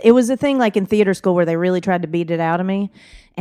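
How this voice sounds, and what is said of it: Southern US Georgia accent. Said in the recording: “So you have a beautiful accent ... I'm from Georgia ... Do I hear my accent? ... I'm very aware of it”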